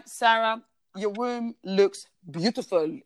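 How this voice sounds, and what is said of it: Imitated Belgian accent. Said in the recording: “in his like beautiful Belgian accent”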